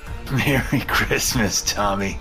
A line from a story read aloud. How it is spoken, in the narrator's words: Dad giggled